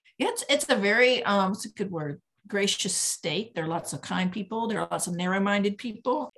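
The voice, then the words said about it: North Carolina accent. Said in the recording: “I'm in North Carolina. Can't you tell by my accent?”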